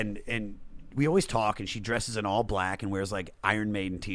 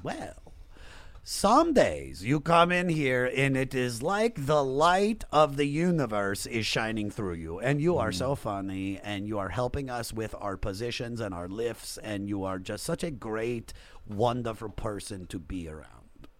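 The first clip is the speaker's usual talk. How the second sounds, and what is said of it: Imitated thick Serbian accent. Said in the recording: “she's got like a thick Serbian accent.”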